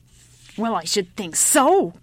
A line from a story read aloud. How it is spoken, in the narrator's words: growled the old woman